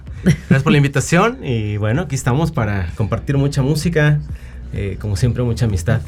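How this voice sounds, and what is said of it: Radio announcer-like voice. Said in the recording (Spanish): “¿tienes voz de locutor? ... Sí, tienes voz de locutor.”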